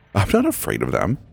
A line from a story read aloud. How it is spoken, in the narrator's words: he scoffed